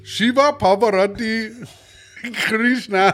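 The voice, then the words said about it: Put-on Indian accent. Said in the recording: “read all the gods again in an Indian accent”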